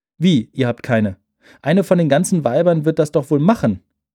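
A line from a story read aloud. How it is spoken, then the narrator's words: Call. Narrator (German): rief Grüni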